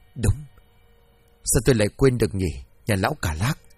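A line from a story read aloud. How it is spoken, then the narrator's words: Soft, recalling. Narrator (Vietnamese): hai tỷ chuẩn trao lên khe khẽ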